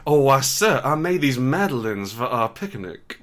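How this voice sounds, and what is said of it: Weak put-on southern accent. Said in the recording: “doing a southern accent. ... Yeah, and like not a great southern accent,”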